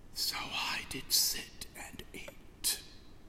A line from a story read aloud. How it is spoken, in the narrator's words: he whispers